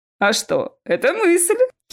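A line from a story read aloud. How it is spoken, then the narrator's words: Giggling. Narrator (Russian): хихикнул Чес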